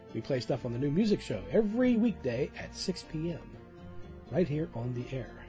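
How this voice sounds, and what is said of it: Mellow public-radio announcer voice. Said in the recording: “I seem to have come down with a bad case of NPR voice ... I got my personality back”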